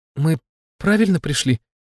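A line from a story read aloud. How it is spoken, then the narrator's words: Frightened question. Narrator (Russian): испуганно уточнила Смерть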